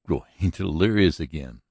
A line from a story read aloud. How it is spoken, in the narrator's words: laughed Virginia